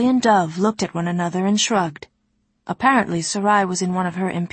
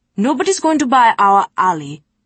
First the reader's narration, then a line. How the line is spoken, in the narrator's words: snapped Sarai, brown eyes ablaze